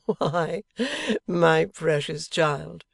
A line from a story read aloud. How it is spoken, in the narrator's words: returned her husband, laughing outright